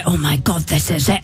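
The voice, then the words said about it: Imitates another person's accent. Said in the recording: “Good accent, that.”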